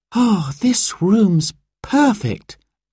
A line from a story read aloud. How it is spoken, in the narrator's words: Sarah sighed